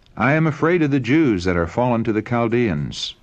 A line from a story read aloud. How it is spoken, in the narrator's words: the king replied